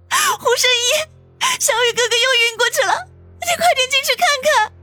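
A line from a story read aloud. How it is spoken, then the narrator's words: Frantic crying shout. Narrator (Chinese): 子双跌跌撞撞的跑了出来，哭着喊道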